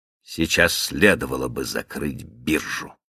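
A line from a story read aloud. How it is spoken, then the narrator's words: Gruff mutter. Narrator (Russian): буркнул Каупервуд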